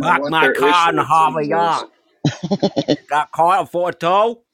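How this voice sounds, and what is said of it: Put-on New England accent. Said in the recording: “Was that Maine? What accent was that? ... That's like New England.”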